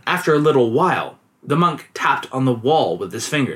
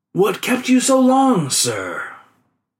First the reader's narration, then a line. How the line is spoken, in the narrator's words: he called out